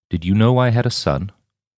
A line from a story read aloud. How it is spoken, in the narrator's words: his voice dropped an octave as he asked